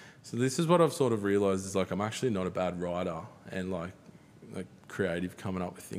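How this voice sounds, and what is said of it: Usual voice. Nothing is said of it.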